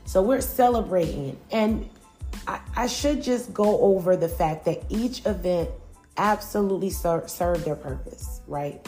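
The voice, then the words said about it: Strained, mostly lost voice. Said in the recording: “My voice is actually kind of gone”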